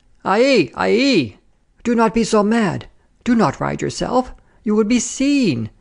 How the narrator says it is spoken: wailed our good friend, Madame Grigon

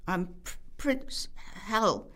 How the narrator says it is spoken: he spluttered

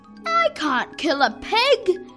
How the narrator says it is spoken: shouted the boy

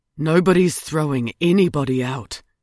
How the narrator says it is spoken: he said quietly

